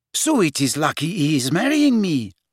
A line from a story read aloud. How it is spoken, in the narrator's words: said Fleur happily